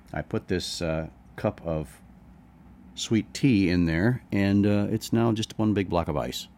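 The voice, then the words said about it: Rough morning voice. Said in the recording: “my voice is sounding kind of rough this morning”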